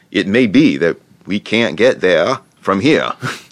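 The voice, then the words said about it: Put-on New England accent. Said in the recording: “best shot at a New England accent. ... Not bad.”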